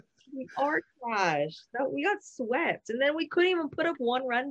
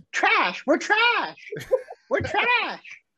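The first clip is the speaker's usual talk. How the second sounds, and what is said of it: Imitates another person's voice. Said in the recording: “my Courtney impression real quick? Impersonation.”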